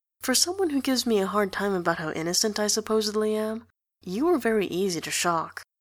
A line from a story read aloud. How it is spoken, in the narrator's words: In a low voice, he says